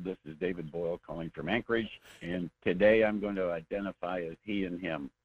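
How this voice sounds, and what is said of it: Congested, stuffy voice. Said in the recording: “I've got a bad cold.”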